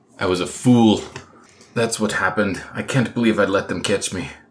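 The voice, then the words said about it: Put-on accent drifting into Scottish. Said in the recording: “I've been practicing this accent all day long and I just keep going Scottish.”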